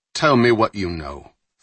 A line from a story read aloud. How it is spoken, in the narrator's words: Fowler said curtly